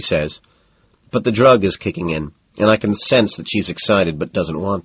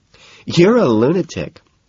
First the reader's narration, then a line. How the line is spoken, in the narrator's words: laughs